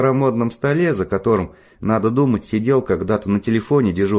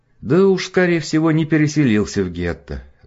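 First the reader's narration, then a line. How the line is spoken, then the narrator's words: Sighed. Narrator (Russian): вздохнул отец Лотар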